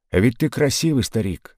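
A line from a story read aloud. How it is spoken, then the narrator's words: Plain. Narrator (Russian): сказал прапорщик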